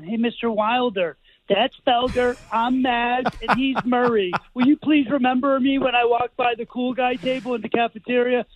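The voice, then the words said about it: Impression of Maz. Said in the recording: “my Maz impression.”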